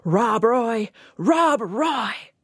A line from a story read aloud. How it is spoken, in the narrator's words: Futilely shouted